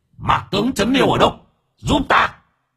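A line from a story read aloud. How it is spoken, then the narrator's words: Shouted. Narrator (Vietnamese): con chó tinh quát lên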